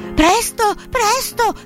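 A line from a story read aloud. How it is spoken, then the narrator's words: Shouting. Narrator (Italian): gridava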